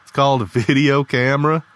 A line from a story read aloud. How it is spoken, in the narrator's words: Lee chuckled